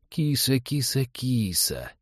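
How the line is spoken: Insinuating coo. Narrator (Russian): вкрадчиво заворковал он

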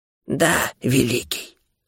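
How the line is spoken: Hoarse voice. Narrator (Russian): хриплый голос Лутари

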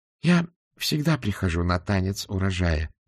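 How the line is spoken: Calm. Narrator (Russian): спокойно сказала госпожа Флитворд

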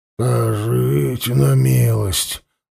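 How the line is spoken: Grumbled. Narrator (Russian): буркнул тот

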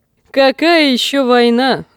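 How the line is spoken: Laughing. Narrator (Russian): засмеялся один

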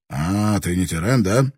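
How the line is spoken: Rude declaration. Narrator (Russian): какой-то самурай грубо заявил

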